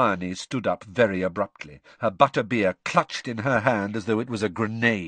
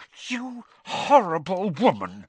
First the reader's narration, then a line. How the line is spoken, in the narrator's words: she said through gritted teeth